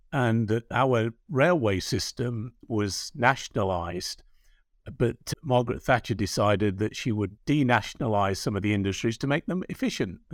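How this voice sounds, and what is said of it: English accent. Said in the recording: “I know the audience can hear ... and my accents being of English origin”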